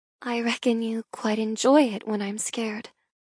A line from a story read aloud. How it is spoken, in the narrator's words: I whisper